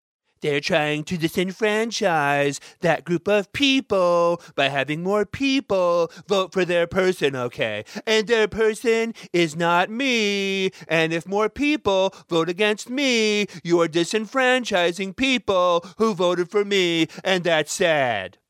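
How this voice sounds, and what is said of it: Poor imitation of another person's voice. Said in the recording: “my shitty Donald Trump impression”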